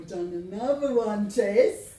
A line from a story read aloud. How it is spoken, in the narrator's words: he said merrily